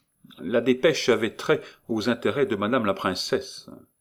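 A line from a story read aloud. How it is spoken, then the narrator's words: Curt, after a cough. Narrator (French): Favier toussa et dit sèchement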